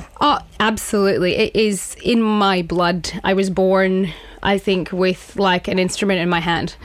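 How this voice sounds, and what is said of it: Strong Scottish accent. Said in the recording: “I'm actually Scottish ... I can tell that from the accent ... the accent's still as strong as ever?”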